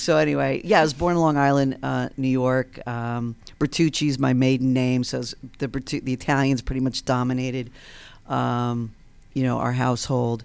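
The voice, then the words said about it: Mild New York accent. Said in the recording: “you could tell I still have this accent. It's watered down. Of course, my New York friends still think I sound Southern”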